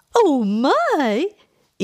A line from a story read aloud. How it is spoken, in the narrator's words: Edith exclaimed